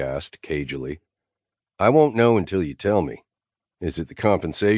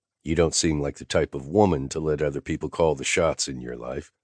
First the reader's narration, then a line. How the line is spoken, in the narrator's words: I said evenly